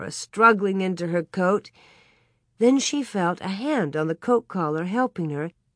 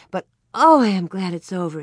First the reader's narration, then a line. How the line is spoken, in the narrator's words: she sighed